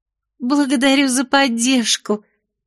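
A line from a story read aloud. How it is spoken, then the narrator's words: Forced cheerful chirp. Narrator (Russian): радостно прощебетала, героически борясь с омерзением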